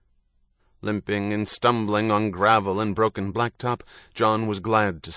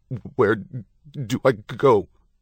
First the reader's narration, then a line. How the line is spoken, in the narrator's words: Trembling with the cold, John stuttered